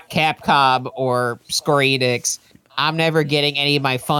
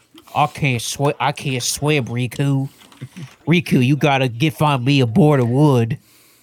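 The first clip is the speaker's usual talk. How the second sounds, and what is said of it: Put-on southern accent. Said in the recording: “Sora's gotta speak in a southern accent.”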